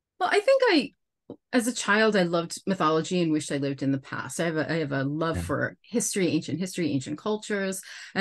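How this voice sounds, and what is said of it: American accent. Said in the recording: “my clearly American accent”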